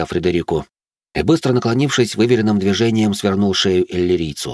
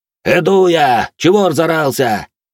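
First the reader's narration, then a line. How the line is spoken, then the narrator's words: Loud shout. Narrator (Russian): Громко прокричал он своему работнику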